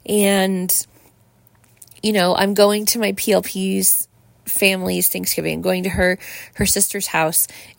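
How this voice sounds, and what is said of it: Sick, slightly congested voice. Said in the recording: “you guys know I've been sick. Like, you can still hear it in my voice, right? I sound better than I have ... I'm still getting over, you know, this gunky crud”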